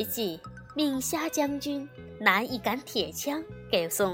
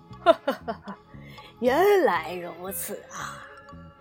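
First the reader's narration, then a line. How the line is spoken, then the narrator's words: Hearty laughter. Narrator (Chinese): 龙王哈哈大笑道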